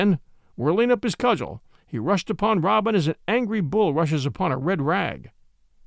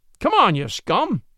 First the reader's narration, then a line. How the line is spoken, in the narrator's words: cried he merrily